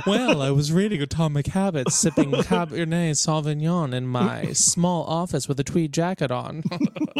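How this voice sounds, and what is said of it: Pompous academic teaching-assistant voice. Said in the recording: “do I put on that voice? ... Do I become a Wellesley TA? ... It is yes is the answer.”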